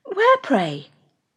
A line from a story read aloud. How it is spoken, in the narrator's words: Marianne coloured and replied very hastily